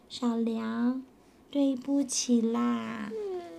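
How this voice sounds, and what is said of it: Quiet, soft-spoken line. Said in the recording (Chinese): “小光很小声地说”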